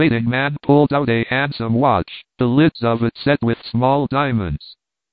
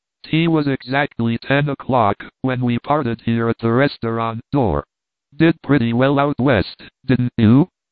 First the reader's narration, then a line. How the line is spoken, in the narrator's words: asked the policeman